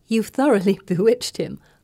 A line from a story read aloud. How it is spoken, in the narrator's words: say, laughing